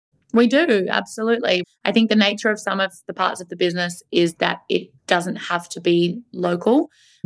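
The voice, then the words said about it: Australian accent. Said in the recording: “everybody's going to be about that accent. Where is that from?”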